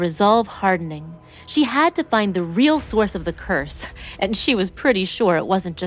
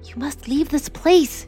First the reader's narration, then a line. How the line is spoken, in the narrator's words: whispered, her voice trembling